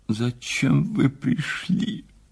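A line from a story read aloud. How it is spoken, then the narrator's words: Sobbing. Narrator (Russian): сказала она сквозь рыдания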